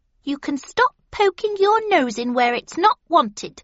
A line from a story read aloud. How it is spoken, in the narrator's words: said the hedgehog haughtily